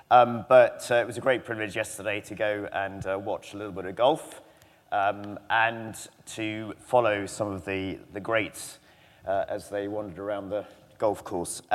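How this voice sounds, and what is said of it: Hoarse, strained voice. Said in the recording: “I didn't lose my voice ... I think I'm very allergic to both the trees and the grass. So this time of year, that's why I'm losing my voice.”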